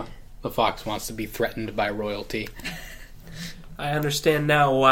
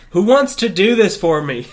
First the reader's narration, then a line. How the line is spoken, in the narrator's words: He shouted